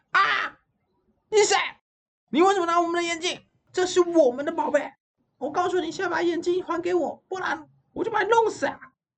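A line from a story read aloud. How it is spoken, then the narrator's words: Loud, three sisters together. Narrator (Chinese): 克拉三姐妹大声讲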